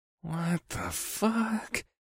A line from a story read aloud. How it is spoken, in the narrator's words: breathed